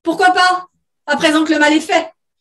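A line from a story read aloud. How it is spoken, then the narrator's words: Father's slightly too high exclamation. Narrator (French): s'exclama le père d'une voix un peu trop aiguë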